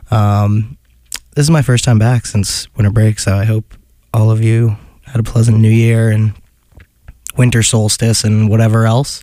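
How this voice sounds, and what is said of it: Hoarse, partly lost voice. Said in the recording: “If you can't tell, I've lost my voice a little bit”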